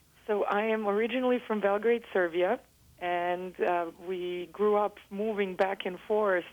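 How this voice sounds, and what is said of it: Slight foreign accent. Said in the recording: “I notice a bit of an accent in your voice.”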